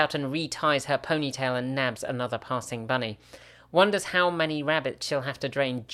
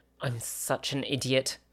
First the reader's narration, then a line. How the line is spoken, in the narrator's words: Gemma mutters to herself